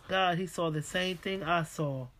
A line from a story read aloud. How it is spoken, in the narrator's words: my mother put her hand up to her mouth and said in a low voice